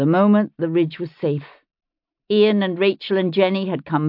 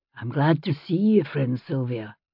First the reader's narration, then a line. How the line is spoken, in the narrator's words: he said gently